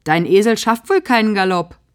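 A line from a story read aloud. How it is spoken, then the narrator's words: Mocking. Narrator (German): höhnt Bruno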